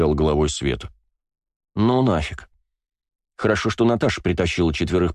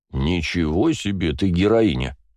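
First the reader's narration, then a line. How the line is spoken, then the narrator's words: Plain. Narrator (Russian): сказала Света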